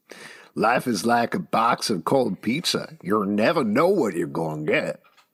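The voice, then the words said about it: Put-on accent, possibly Cajun. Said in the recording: “Are you a Cajun? ... What accent was that?”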